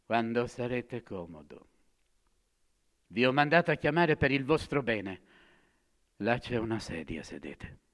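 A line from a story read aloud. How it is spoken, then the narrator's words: Said coldly. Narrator (Italian): freddamente, poi disse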